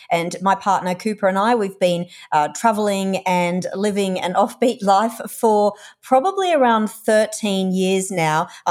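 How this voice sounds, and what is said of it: Australian accent. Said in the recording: “we're Australian, if you can't tell from my accent.”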